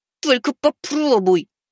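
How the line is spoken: Through gritted teeth. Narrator (Russian): процедил я

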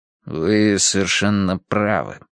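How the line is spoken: Gloomy agreement. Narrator (Russian): согласился Бейн мрачно

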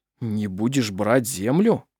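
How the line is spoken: Confused. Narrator (Russian): растерянно произнес Арф

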